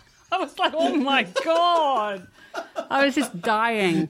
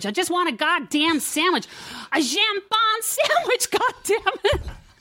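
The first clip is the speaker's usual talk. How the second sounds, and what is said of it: Put-on bitchy American accent. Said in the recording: “fucking really good bitchy American accent. That was fantastic. That was really fantastic.”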